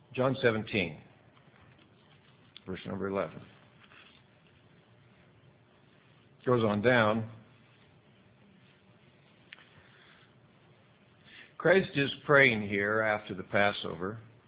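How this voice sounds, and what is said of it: Scratchy, fading voice. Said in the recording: “My throat's kind of starting to get a little bit scratchy ... I am losing my voice”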